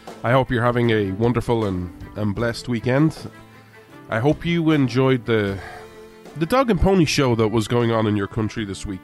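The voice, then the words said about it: Irish accent. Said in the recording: “This Irishman stands with America ... where you come for the accent”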